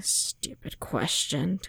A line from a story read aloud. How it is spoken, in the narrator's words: Fimor muttering